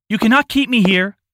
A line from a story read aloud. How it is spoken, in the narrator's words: shouted a man